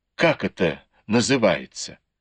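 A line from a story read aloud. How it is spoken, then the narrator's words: Displeased tone. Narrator (Russian): Цинь-Джун недовольным тоном произнес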